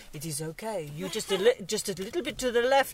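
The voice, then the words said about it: Imitated French accent. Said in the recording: “this French accent”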